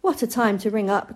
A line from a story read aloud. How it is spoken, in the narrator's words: cried Mama